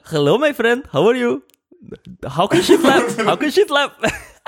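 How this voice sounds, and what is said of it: Put-on thick Indian accent. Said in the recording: “a thick Indian accent ... You give me your best Indian accent ... The Indian mood ... kind of like broken English”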